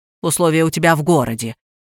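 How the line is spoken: Snorting. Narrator (Russian): хмыкнула Ирина

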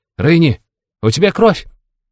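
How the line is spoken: Childish squeal. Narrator (Russian): Взвизгнула она по-детски

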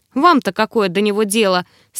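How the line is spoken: Skeptical snort. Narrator (Russian): скептически хмыкнул Снарк

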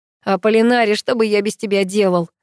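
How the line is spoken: Question after laughing. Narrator (Russian): отсмеявшись, спросил Паша

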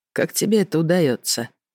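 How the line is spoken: Quiet question. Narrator (Russian): негромко спросил Рен

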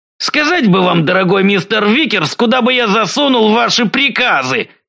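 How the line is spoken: Sudden bark. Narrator (Russian): вдруг рявкнул Осборн

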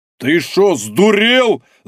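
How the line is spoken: Shocked yelling. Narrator (Russian): заорал потрясенный Дубовой

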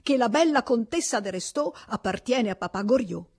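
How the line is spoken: Shouted by a student. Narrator (Italian): gridò lo studente

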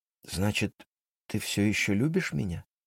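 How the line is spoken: Uncertain question. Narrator (Russian): неуверенно спросила она

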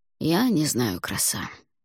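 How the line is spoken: Quiet reply. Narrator (Russian): негромко ответил Алвар

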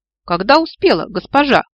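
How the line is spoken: Smirking. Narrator (Russian): хмыкнул Людвиг Вильгельминович

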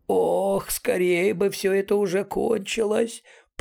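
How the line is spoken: Creaky voice. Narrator (Russian): проскрипел Мэйс

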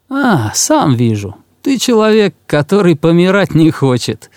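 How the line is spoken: Laughing. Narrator (Russian): засмеялся

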